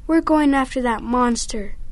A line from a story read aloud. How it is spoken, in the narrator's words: Shaggy cried